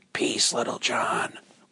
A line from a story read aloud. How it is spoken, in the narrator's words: whispered Robin